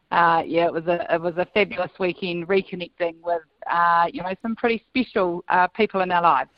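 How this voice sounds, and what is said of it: Worn, strained voice. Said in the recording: “my voice is a little bit worse for wear at the moment after celebrating in good style”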